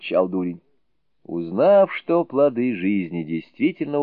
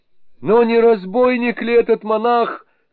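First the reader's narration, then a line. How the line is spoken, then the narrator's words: Shouting. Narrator (Russian): крикнул Мин Юэ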